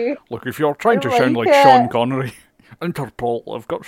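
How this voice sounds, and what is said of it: Usual voice. Nothing is said of it.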